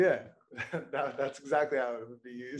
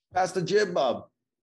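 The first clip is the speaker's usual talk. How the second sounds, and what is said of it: Imitated regional accent, done poorly. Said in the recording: “That's kind of the main accent. I can't really do it right.”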